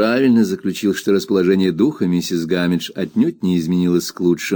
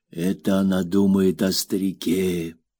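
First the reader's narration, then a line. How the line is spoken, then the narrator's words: Whisper behind hand. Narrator (Russian): мистер Пегати прошептал, прикрывая рот рукой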